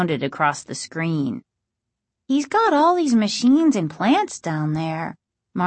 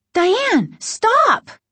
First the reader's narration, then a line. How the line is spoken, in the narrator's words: Margaret cried